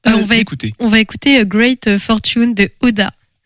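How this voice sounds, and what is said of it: Says an English title with an accent. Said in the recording (French): “Quel accent.”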